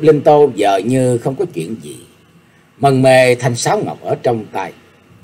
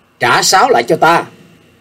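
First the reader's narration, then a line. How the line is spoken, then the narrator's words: Sudden loud call. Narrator (Vietnamese): Nhạc Chiêu Dương chợt cao giọng gọi về phía Diệp Linh Tô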